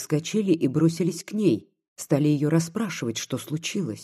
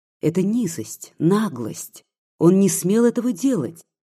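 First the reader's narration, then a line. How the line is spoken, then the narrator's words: Tearful exclamation. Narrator (Russian): воскликнула она, заливаясь слезами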